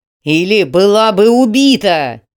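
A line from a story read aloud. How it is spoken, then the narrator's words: Roared in reply. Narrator (Russian): взревел в ответ Роман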